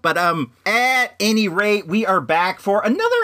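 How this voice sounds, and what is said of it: Usual voice. Nothing is said of it.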